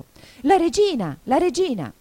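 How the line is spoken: Anxious shout. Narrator (Italian): Cinque, che guardava attorno pieno d'ansia, gridò

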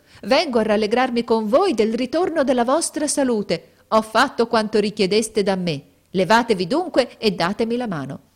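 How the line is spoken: Woman shouting. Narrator (Italian): gridò essa

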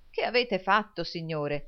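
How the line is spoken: Exclaiming. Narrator (Italian): esclamò il signor Lillywick

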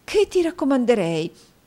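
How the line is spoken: Exclaimed. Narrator (Italian): esclamò la signora Nickleby

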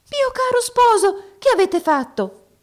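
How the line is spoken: Surprised exclamation. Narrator (Italian): esclamò la principessa nella sua sorpresa

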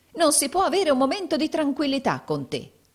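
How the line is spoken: Woman exclaiming. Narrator (Italian): esclamò la donna

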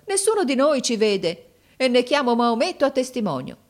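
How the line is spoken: Exclaimed. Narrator (Italian): esclamò mio fratello

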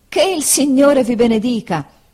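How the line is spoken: Surprised exclamation after coughing. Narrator (Italian): esclamò Homer dopo esser caduto per la sorpresa in un accesso di tosse

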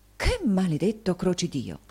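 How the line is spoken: Frightened exclamation. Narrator (Italian): il signor Mantalini sentì la loro influenza e, volgendosi spaventato, esclamò

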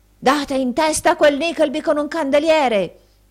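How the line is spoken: Shouted through keyhole. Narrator (Italian): gridò il signor Squeers per il buco della chiave

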